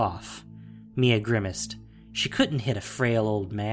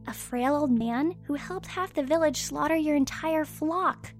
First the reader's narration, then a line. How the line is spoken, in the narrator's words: She sighed